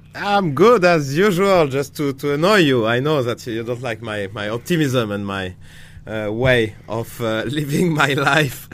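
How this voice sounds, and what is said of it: French accent. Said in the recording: “I was mocked this week for my French accent”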